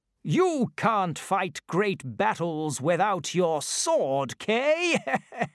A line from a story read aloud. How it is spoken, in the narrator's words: laughed Sir Ector